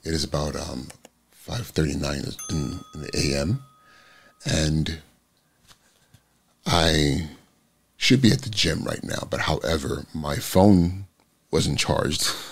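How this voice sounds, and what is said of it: Raspy, hoarse morning voice. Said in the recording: “my voice is super raspy this morning.”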